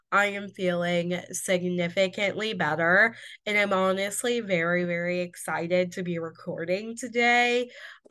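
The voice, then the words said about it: Sick-sounding voice. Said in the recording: “if you cannot tell by my voice, I am still sick”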